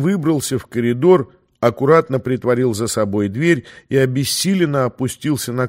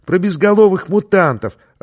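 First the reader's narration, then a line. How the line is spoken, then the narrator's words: Joyful shriek. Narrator (Russian): радостно завопил мальчуган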